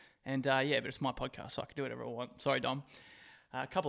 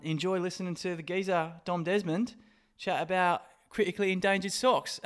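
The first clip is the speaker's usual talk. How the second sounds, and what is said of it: Bad put-on English accent. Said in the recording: “That was the worst fucking English accent I've ever heard.”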